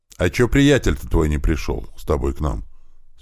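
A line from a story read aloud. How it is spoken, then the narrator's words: Plain. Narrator (Russian): спросил я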